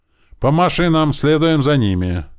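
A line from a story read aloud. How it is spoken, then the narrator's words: Loud shout. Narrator (Russian): громко крикнул Туман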